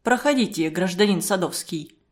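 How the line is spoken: Dry invitation. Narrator (Russian): сухо пригласил следователь

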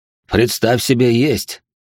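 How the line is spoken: Snorting. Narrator (Russian): хмыкнул он

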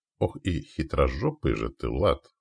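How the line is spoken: Grumbling mutter. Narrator (Russian): пробурчал Яволод

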